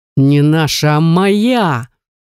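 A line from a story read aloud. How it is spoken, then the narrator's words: Roar like wounded beast. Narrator (Russian): Не удержался и взревел, как раненый зверь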